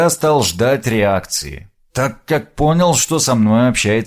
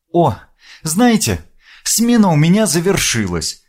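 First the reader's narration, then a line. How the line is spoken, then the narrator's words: Joyful young woman. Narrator (Russian): радостно проговорила девушка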